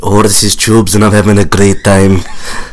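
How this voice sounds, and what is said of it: Put-on Mexican accent. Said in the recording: “That was his Mexican accent. Super good at it.”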